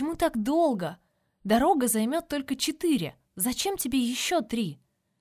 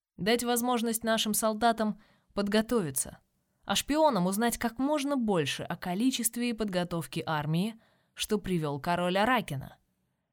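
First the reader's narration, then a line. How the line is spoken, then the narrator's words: Calm explanation. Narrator (Russian): спокойно объясняет старший принц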